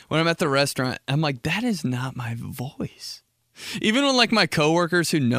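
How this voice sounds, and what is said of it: Usual voice. Nothing is said of it.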